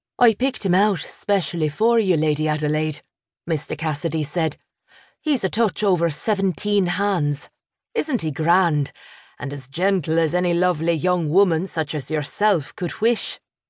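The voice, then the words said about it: Irish accent. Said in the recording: “The man's Irish accent was charming.”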